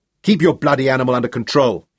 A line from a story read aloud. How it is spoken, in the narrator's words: he snarled at Michael